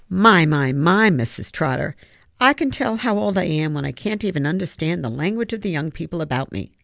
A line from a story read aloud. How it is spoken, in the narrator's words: said Mr